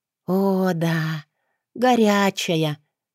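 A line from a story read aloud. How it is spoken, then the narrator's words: Blissful drawl, female. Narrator (Russian): протянула с наслаждением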